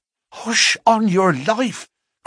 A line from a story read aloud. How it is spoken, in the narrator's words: cried in alarm